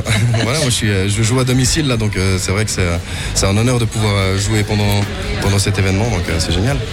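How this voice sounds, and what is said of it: Swiss Vaud French accent. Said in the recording (French): “vu mon accent vaudois”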